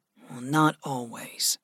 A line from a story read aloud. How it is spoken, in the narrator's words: Gregory murmured